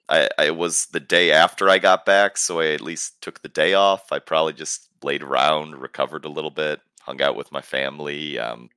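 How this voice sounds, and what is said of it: Raspy, gravelly voice. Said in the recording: “Raspy, gravelly. ... It's getting worse with the passing of the hours.”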